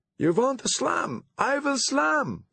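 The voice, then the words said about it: Exaggerated foreign accent. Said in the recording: “playing up her accent”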